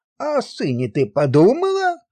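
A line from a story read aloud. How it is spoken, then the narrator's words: Heated exclamation. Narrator (Russian): воскликнул он запальчиво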